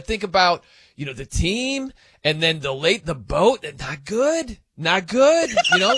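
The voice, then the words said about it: Imitates another person's voice. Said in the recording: “That's pretty good. You got the mannerisms down ... I've never been impersonate.”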